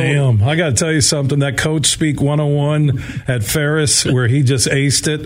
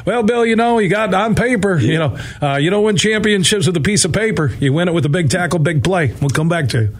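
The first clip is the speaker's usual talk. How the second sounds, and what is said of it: Put-on southern accent. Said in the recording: “you getting that southern accent? You're from Sault Ste. Marie.”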